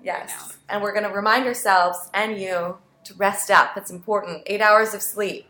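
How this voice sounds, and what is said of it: Tired, hoarse, fading voice. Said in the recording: “I'm feeling quite tired ... I'm kind of losing my voice.”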